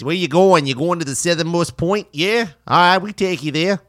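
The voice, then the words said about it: Poor imitation of Boston accent. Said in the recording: “all of them had like Boston accents ... That's a horrible accent”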